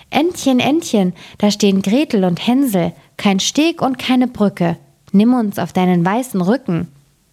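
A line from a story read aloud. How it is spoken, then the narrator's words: Called out. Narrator (German): rief sie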